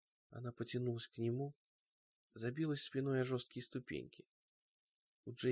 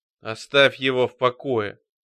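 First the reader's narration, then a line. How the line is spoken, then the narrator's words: Bellowing. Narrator (Russian): гаркнул Рон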